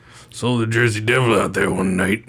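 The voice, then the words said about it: Put-on backwoods rural accent. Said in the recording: “Theirs is more like some backwoods, like ... Weird accent. Very, very strange.”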